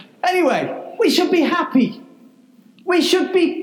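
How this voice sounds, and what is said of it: Usual voice. Nothing is said of it.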